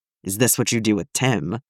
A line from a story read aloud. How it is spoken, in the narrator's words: he growls out